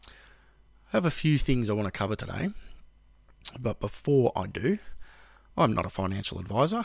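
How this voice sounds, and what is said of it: Sick, unwell-sounding voice. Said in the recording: “I've had the family unwell and of course they passed that on to me. Still, as you can probably hear in my voice, trying to get over it”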